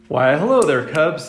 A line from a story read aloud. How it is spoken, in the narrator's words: said Mrs